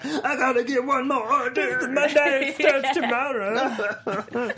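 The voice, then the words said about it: Impression of the mom. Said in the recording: “That's your best impression you've done on this show. ... The mom?”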